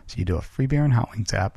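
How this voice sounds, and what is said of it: Whispering. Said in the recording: “that's why I'm whispering here”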